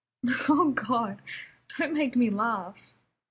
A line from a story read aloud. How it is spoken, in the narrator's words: Rodney said, laughing